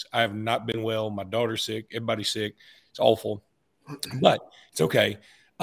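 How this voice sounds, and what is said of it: Sick-sounding voice. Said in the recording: “I'm sick. You can probably tell by my voice.”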